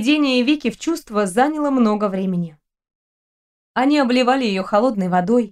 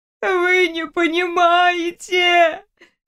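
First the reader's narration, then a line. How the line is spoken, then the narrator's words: Insisting through drunken sobs. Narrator (Russian): твердила Вика сквозь пьяные рыдания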